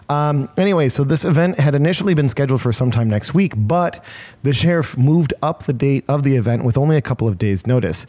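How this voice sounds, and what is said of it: Hoarse, worn-out voice. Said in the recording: “My voice is still pretty shot from that because there was a lot of shouting going on.”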